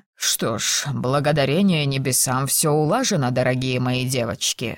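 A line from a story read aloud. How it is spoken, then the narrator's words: Feigned relieved sigh. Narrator (Russian): с притворным облегчением вздохнул лорд Кембридж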